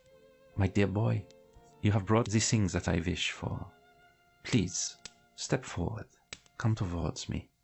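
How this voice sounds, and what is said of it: Elegant, cold put-on Hungarian accent. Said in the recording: “the voice is very elegant and a little bit cold... I know I can't do this accent very well... It's a Hungarian accent.”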